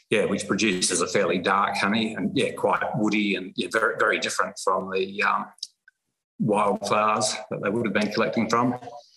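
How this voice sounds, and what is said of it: Slight twangy accent, possibly Kiwi. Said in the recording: “you've got a slight twang in that accent of yours. I know you've got to have a bit of a Kiwi background somewhere there.”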